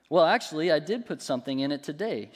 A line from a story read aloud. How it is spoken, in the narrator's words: she answered